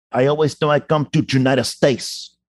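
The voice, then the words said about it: Harsh Cuban accent, Al Pacino impression. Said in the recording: “does Al Pacino's Cuban accent hold up? ... I find his accent to be a little harsher than I'm used to ... His accent is, you know, ... it was a little harsh”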